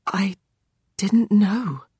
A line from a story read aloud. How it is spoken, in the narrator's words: he whispers